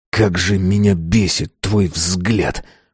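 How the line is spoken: Hissed. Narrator (Russian): прошипел

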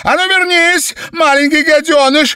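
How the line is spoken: Mother shrieking. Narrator (Russian): взвизгнула мать

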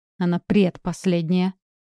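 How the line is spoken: Snapping retort. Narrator (Russian): огрызнулась Электра

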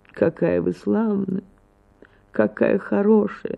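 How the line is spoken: Weak, sickly voice. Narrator (Russian): начал слабым голосом, точно больной

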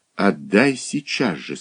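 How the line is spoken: Through gritted teeth. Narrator (Russian): сквозь зубы процедила Алла

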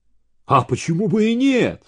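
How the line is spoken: Embarrassed, arrogant exclamation. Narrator (Russian): смущенно и заносчиво воскликнул Владька

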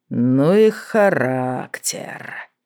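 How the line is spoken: Rueful mutter. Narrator (Russian): сокрушенно пробормотал Мак

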